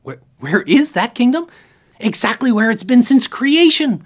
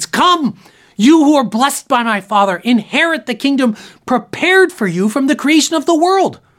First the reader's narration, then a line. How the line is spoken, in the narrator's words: Jesus will shout to his faithful saints